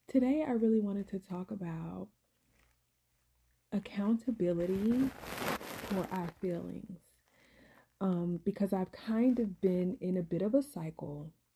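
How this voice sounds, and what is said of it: Voice suddenly sounding off. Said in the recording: “excuse my voice, y'all. I'm so sorry. ... my voice was fine literally like seconds ago, and then I get on here and now my voice is like, what's happening?”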